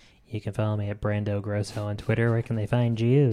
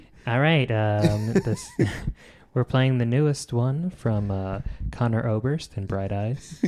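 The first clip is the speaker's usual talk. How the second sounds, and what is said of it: Mock NPR radio host voice. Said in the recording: “That's a good voice. ... the worst, most annoying NPR host is what that could also be. ... You got a pretty good NPR voice.”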